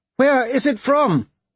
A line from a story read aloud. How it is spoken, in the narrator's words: He could hear her voice outside, shouting